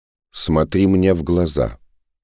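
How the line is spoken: Stern shaman's command. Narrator (Russian): строго приказал шаман

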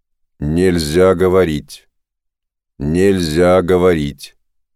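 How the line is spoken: Very cold steely voice. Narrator (Russian): очень холодным стальным голосом произнес

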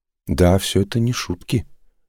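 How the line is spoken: Puzzled sigh. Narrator (Russian): озадаченно вздохнул Саош

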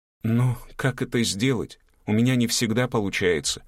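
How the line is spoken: Sighed, student. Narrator (Russian): вздохнула ученица

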